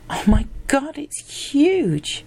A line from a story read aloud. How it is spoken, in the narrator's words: gasped Lucy